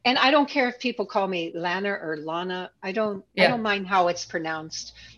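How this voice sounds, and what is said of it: Pittsburgh accent. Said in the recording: “because I'm from Pittsburgh, I have a Pittsburgh accent.”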